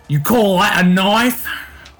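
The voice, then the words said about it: Put-on Australian accent. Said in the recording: “in my best Aussie accent”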